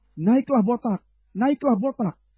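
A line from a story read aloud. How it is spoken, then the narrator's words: Children jeering, calling out. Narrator (Indonesian): anak-anak mencemoohkan dia serta berseru kepadanya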